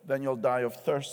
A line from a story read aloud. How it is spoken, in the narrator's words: said the lion